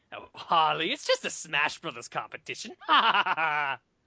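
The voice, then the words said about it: Joker impression. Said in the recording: “Say it's just a Smash Brothers competition as Joker”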